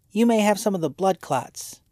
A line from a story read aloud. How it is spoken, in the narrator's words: he sneered